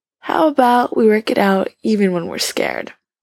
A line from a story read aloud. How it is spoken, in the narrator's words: Ryan yawns